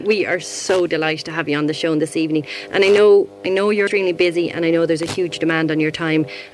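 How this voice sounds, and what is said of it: Irish accent. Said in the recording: “Lovely Irish accent.”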